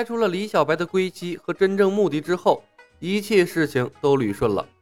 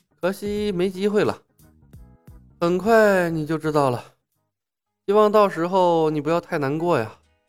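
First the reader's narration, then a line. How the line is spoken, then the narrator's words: Sighing. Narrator (Chinese): 李牧叹道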